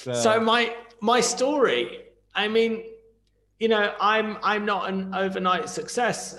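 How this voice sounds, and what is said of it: Thick British accent. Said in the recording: “I have a very thick British accent.”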